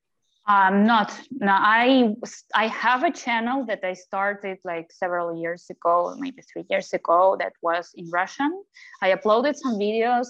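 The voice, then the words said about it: English with Hispanic-sounding accent. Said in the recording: “Your accent sounds Hispanic. ... Her English accent sounds she's Latina. ... It's not anymore Ukrainian accent. ... not so much. ... I work with my Spanish accent”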